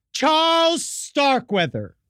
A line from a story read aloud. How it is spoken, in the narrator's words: Caril Ann dramatically yelled